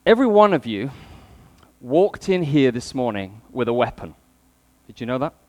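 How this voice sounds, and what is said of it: British accent. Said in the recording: “if you can cope with a British accent”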